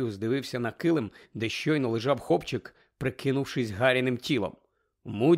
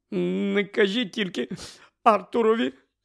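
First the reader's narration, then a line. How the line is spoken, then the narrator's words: Sobbing. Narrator (Ukrainian): схлипувала місіс Візлі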